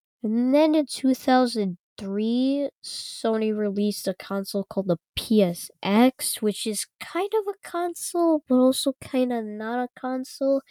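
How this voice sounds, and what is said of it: Congested, stuffy-nosed voice. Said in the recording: “my voice sounds weirder today. I have a stuffy nose, and a dry throat a little bit”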